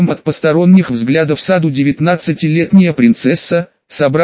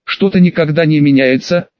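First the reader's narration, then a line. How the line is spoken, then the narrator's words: Amused snort. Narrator (Russian): принц хмыкнул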